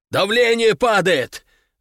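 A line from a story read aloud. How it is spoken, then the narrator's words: Loud yell. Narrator (Russian): заорал Нартов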